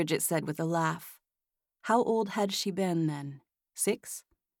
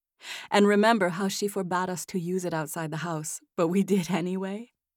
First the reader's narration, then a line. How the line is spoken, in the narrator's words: Margaret giggled